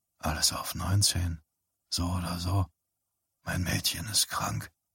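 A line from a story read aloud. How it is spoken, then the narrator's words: Quiet. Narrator (German): sagte Johnny Smith leise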